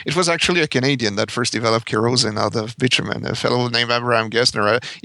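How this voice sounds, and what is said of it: French-Canadian accent. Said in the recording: “if your listeners have not picked up on my accent, I'm French-Canadian.”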